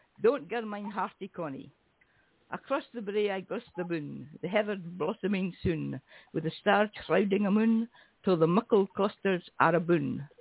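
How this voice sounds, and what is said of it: Slightly Scottish accent, reading poetry. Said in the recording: “there is needed a slightly Scottish accent”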